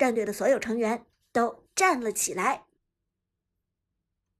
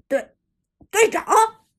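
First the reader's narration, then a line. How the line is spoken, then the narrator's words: Shocked shout. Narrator (Chinese): 旺财震惊喊道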